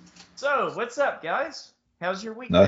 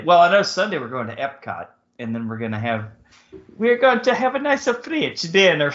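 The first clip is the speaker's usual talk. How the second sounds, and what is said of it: Poor French accent, Borat-like. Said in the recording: “That's not a French accent at all. ... He's leaning a little towards Borat right there.”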